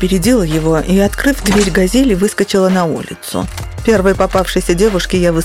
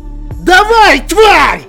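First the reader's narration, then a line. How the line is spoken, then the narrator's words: Young man yelling. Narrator (Russian): завопил парень в белой куртке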